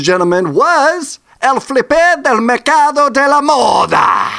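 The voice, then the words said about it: Put-on Italian accent reading Spanish. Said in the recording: “you are kind of using the Italian accent.”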